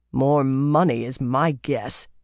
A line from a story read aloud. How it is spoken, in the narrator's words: Birgitta growled